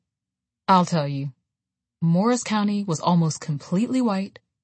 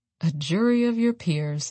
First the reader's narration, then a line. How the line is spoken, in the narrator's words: Evelyn said bitterly